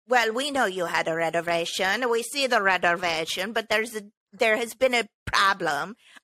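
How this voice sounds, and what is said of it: Put-on accent. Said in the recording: “I don't know why I'm speaking in an accent because nobody at the restaurant had an accent. I'm just thinking 90s movie wise.”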